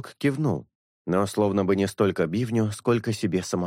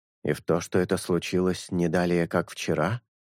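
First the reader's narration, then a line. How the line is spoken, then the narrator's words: Soft whistle. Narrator (Russian): Орев негромко присвистнул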